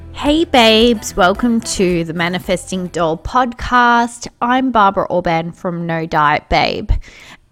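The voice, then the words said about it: Congested, nasal blocked-up voice. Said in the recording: “my voice isn't maybe fully recovered. Still a little bit blocked nasally ... the aircon kind of blocked my sinuses ... I'm kind of just a bit blocked up”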